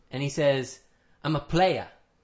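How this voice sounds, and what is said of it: Put-on Australian accent. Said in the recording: “That's my Australian accent again.”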